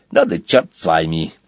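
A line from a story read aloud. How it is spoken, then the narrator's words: Muttered. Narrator (Russian): пробормотал он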